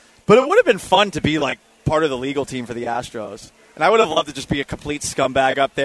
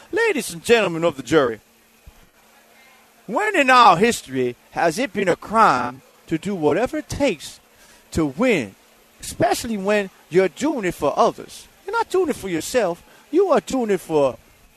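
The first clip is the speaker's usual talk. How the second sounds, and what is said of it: Put-on Southern gentleman accent. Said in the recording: “Maybe I'd adopt a southern gentleman accent.”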